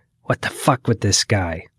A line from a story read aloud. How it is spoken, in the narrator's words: my wife hissed